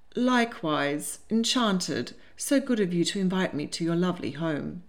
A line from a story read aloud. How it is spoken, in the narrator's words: Starling said in a lifeless voice